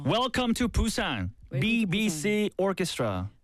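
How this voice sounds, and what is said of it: Very strong Korean Busan accent. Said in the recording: “With the Korean, very, very strong Korean accent. ... Pretty Busan accent.”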